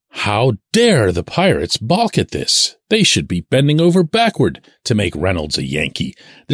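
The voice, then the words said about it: Annoyed, sarcastic tone. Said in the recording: “as you can tell by my tone here, I find it really, really annoying”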